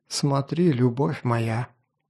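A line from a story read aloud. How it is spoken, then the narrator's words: Whisper. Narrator (Russian): шепнул Алиарий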